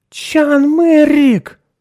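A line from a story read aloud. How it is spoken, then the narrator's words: Loud surprised exclamation. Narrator (Russian): громко воскликнула она удивленно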